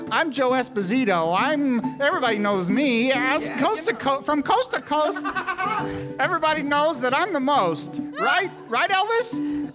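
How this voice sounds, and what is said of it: Wavering put-on New York accent. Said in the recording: “I'll do an impression of Alex... It's just going to be me slipping in and out of a New York accent.”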